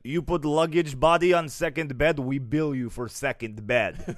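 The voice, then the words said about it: Put-on Russian accent. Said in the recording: “It sounds scarier when you do it in that accent. ... I know, it's that Russian accent.”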